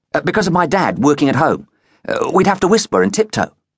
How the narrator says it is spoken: Triss said quickly

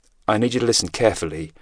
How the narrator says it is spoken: Ryan said, keeping his voice flat

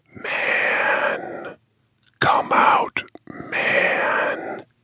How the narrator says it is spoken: the whisper rasped inside his head

